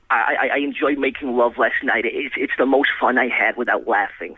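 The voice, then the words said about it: Imitates another person's voice. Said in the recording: “That is an excellent impression”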